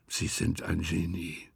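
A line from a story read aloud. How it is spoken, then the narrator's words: Quiet speech. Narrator (German): sagte er leise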